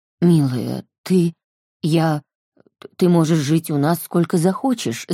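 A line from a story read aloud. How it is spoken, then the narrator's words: Halting, forced out. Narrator (Russian): запинаясь, выдавил папа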